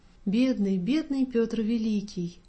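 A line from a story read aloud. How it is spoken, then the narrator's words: Tender whisper. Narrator (Russian): дядя … ласково шептал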